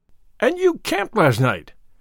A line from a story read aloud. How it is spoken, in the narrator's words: cried Alfred in pure astonishment